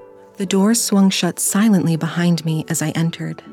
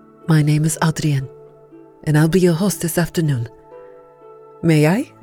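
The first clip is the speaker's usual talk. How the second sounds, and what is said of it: Slight French accent. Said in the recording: “with a hint of a French accent”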